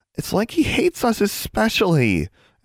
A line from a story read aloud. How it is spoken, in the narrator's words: Anna whined